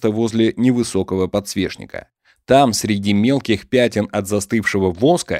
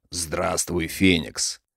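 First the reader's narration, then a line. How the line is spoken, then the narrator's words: Deep, friendly voice. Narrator (Russian): Орделианин приветливо улыбаясь, сказал низким густым голосом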